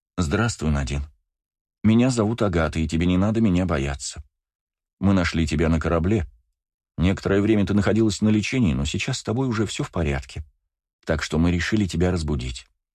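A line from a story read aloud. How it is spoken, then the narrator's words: Soft. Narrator (Russian): мягко произнесла девушка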